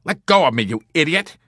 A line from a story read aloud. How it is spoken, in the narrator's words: He cried out furiously